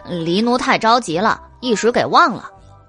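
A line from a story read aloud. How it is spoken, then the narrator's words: Youth, sheepish chuckle. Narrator (Chinese): 黑衣少年嘿嘿一笑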